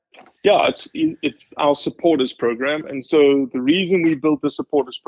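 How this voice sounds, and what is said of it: Foreign accent. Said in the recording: “this guy with a foreign accent? You can't understand. ... you sound so much smarter than I do with that accent.”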